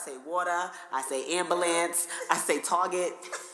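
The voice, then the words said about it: Heavy New Jersey accent. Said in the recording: “my accent is just bad ... I get teased all the time for my accent ... Jersey Girls ... The accent is heavy. It be making me pronounce stuff wrong”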